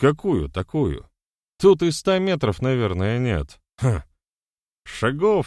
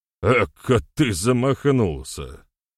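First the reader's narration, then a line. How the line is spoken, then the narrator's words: Short laugh. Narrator (Russian): хохотнул Мухомор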